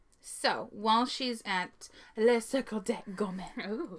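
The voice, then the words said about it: Attempted French accent pronunciation. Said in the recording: “I'm learning French. I'm not great at it, but I'm working on that accent.”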